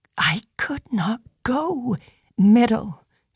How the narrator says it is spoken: she whispered

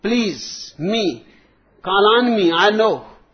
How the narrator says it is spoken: Johnny yelled

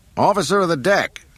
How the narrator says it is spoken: Han yelled

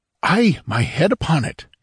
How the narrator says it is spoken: cried Hadrathus, his face lightened with fervor

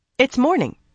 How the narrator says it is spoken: Nynaeve said sharply

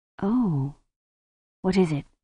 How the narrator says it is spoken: Susan said quietly

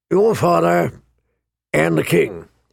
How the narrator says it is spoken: he rumbled

